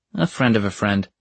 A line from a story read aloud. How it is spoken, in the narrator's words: Magnus replied